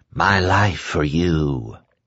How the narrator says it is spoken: And Trash had whispered

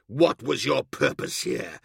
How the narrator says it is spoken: growled

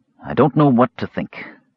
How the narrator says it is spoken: Raistlin answered gravely

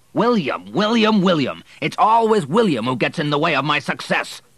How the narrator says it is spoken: shouted Henry as he stormed out

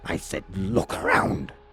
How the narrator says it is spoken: Forgrim snapped

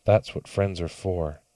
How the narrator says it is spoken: added quietly

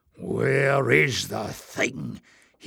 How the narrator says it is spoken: hissed Glock

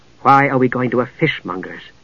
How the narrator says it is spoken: asked in a low voice

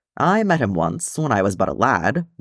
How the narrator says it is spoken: Gimli said, and snorted

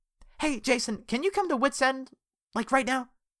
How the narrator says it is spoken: She asked urgently

